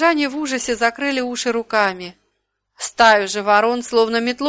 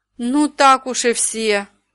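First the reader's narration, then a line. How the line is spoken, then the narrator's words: Sighing. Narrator (Russian): вздохнул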